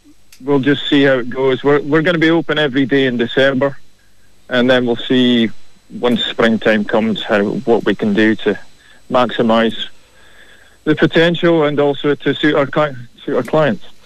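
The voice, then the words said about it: Scottish accent, slight South African tinge. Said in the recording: “that Scottish accent ... There is a touch of South African off it as well”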